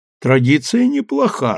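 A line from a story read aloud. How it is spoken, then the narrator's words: Laughing. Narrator (Russian): расхохотался Гирин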